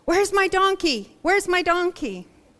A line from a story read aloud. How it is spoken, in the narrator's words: he rides around yelling on his donkey backwards, saying